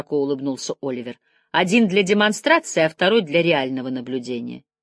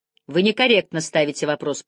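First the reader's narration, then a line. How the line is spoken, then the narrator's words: Grumbled. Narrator (Russian): пробурчал Стрэп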